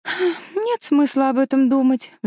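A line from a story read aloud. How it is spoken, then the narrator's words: Sighing. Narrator (Russian): вздохнула Мэриголд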